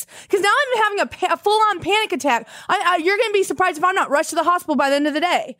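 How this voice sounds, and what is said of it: Raised, loud panicked voice. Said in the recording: “I'm raising my voice”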